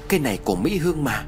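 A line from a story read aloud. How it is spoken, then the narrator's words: Startled exclamation. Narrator (Vietnamese): Hảo giật mình kêu lên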